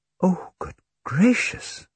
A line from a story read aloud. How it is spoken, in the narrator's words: Miss Amory gasped with horror